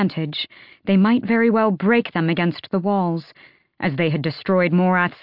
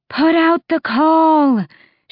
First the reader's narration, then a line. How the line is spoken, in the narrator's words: she shouted over the din, the roar of the wind